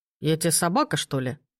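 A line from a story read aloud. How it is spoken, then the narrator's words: Beast's grumble. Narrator (Russian): проворчал хищник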